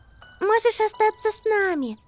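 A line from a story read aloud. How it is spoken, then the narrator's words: Very kind voice. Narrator (Russian): сказала Амелия своим самым добрым голосом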